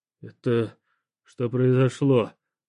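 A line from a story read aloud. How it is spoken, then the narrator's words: Confused mutter. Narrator (Russian): пробормотал я, ничего не понимая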